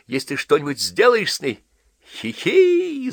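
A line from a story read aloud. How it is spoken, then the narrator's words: Gleeful giggling. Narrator (Russian): засмеялся Вирский, будто Джон поднял долгожданную, самую любимую его тему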